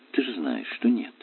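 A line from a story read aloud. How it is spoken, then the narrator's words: Soft. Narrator (Russian): мягко ответила Светлана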